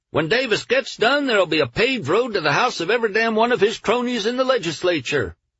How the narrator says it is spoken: A hatless man stood up and cried

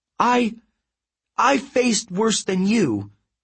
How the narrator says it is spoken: Annabeth cried

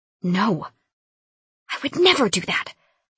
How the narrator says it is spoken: I whisper screamed

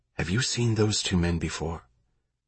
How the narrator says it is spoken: Remy whispered

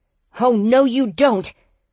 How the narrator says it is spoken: I yelled

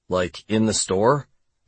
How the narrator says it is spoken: I asked

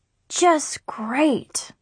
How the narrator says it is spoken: I sighed

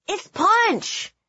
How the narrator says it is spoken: he yelled in my ear

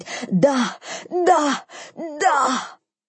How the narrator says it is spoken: Her meows turned into nonsensical screaming, and she finally yelled out

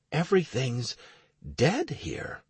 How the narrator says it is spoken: I whispered with astonishment

